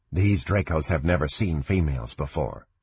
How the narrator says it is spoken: she said quietly

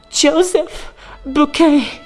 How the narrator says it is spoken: gasped

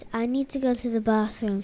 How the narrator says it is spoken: she says

